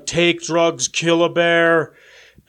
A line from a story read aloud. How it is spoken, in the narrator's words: Whitebird, she will shout